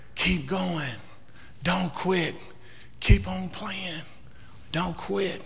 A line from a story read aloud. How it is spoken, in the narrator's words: the master kept whispering in the boy's ear